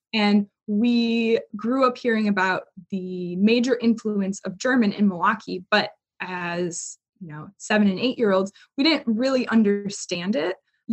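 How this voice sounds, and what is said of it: Milwaukee accent. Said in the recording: “I was born and raised in Milwaukee, as you can probably tell by my accent.”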